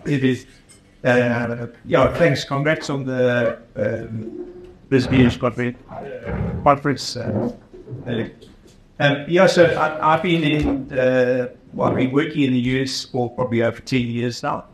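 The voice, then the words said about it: South African accent. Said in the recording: “Your accent is South African”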